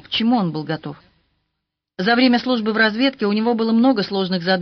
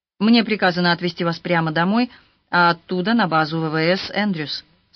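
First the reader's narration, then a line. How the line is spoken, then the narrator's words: Plain. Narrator (Russian): сказал капитан Доуэрти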